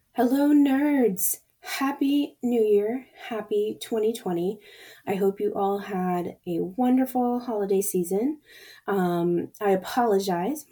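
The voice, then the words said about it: Hoarse, raspy voice. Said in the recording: “my voice is a little messed up from one of the nasty colds that's going around this season ... whenever I get a cold, I get laryngitis ... everyone tells me that my voice is hilarious”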